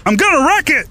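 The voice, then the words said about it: John C. Reilly impression. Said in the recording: “John C. Reilly voice matching audition... Holy shit, that guy sounds just like John C. Reilly.”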